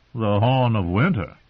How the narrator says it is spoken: Sir Alistair chuckled

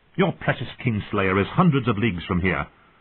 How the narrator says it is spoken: snapped Lisa Arryn

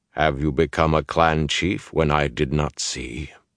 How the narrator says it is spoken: Ruark showed no hint of satisfaction, only went on in that level voice

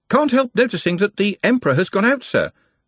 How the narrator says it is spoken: said the voice from below cheerfully

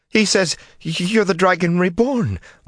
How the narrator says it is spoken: Lorraine spluttered

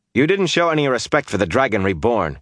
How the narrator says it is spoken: he snapped

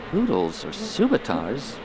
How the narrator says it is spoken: Barriss asked softly

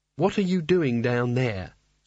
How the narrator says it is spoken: said Kanina testily

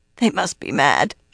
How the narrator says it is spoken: she croaked, light but her middle hurt

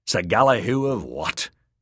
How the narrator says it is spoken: he snorted

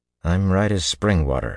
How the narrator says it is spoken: he muttered

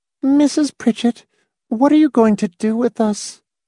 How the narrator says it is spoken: In a funny, strained little voice, Miss Rice said

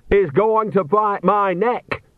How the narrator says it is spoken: shouted Nanny

